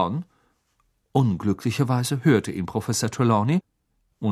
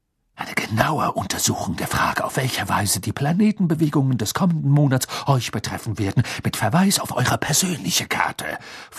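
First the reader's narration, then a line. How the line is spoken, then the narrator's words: Stern sharp snapping. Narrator (German): fauchte sie und klang dabei eher nach Professor McGonagall als nach ihrem üblichen windig-duftigen Selbst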